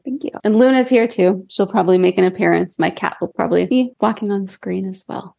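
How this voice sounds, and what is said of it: Slightly cracky voice from a cold. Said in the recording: “I do have a little bit of a cold. So, my voice is a little cracky”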